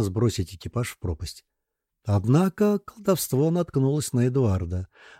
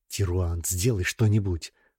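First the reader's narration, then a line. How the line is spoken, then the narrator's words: Whisper. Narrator (Russian): прошептал Архас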